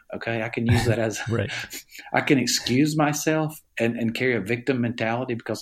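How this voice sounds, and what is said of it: Southern US accent. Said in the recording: “You can tell I have a Southern accent. I'm from Alabama.”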